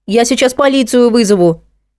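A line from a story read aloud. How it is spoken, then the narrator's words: Shouting. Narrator (Russian): крикнула Саша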